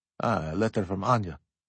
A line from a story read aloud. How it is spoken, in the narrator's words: Nikolai Alexandrovich muttered with a smile